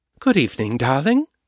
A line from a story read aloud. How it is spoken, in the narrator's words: Morgan said brightly